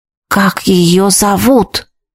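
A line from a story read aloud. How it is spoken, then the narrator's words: Wheezing. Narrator (Russian): снова просипел я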